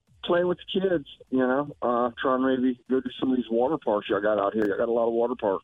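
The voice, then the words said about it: Southern New Orleans accent. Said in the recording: “You have an interesting accent. ... I'm from New Orleans, from the south of New Orleans.”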